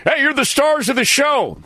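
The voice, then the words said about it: Cheesy DJ voice. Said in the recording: “Do I sound like a cheesy DJ?”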